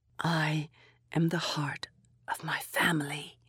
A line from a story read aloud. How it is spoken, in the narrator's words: I whispered